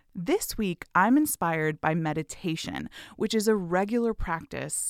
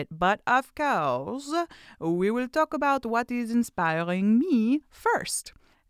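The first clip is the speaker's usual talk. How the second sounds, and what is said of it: Put-on French accent. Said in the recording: “I think that was a French accent.”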